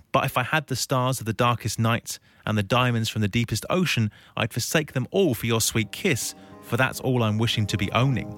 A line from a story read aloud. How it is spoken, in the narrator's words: Bob whispers